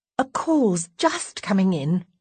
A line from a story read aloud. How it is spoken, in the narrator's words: I say hastily